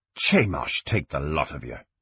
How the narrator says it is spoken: Selquist muttered into his beard

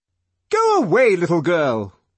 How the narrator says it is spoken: shouted the DHC angrily

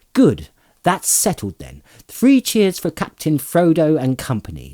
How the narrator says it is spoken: shouted

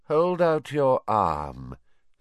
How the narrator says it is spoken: said Voldemort lazily

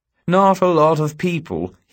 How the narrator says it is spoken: he says sadly

